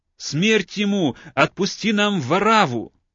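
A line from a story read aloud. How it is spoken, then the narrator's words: Crowd shouting in unison. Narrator (Russian): все в один голос закричали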